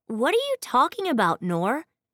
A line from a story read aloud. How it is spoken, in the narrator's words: Finn asked, his tone as wary as his look